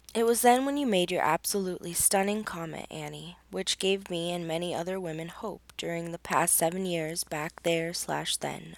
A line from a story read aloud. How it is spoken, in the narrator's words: said